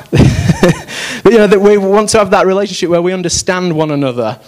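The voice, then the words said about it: Yorkshire accent. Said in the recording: “I kind of pick up the Yorkshire twang again ... that Yorkshire-Leicestershire hybrid accent ... That's the strong accent.”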